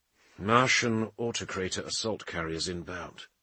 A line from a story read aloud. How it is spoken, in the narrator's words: Ventidian said grimly